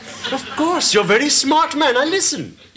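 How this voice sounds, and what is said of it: Pakistani accent. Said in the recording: “his apparently Pakistani accent”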